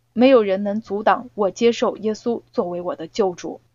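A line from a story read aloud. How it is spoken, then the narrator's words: Quiet. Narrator (Chinese): 他小声说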